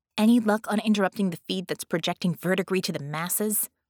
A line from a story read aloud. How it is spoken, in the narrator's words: Bella growled the name